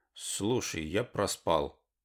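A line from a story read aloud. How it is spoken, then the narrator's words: Mumbled. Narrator (Russian): промямлил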